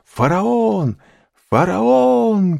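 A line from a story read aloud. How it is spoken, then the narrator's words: Crowd shouting. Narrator (Russian): кричали все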